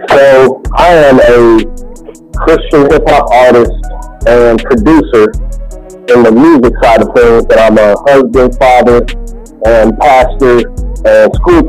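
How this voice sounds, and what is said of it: Kentucky accent. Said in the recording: “As you can tell from the accent, I come from Kentucky.”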